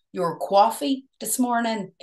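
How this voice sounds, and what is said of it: American New York accent. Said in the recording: “It was like New York. ... American Northern Ireland.”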